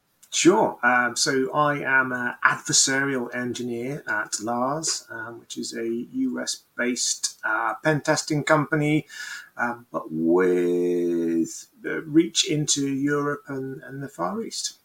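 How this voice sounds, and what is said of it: British accent. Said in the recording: “based on that accent, I think we can tell that you're not from the US ... I have one of those beautiful British accents.”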